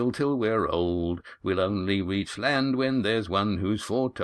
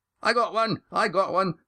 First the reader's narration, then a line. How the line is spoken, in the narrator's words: shouted one of the younger sailors